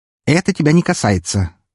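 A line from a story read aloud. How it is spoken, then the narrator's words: Sharp, a mother. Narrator (Russian): резко произнесла его мать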